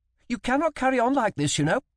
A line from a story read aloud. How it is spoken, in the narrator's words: she snapped